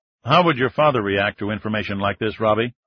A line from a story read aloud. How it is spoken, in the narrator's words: Ryan asked